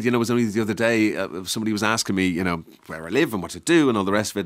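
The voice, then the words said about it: Irish accent with slight English influence. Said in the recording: “definitively Irish... It's wavy... a bit affected... English”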